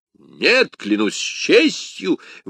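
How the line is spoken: Exclaiming guardsman. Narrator (Russian): воскликнул гвардеец его величества

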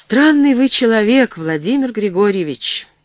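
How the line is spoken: Sighing. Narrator (Russian): вздохнул Устинов

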